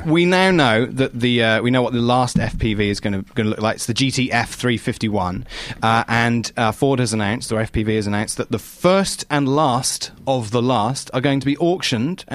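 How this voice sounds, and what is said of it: English accent. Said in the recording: “you have an anchor who is English today, you are going to damn well take this accent.”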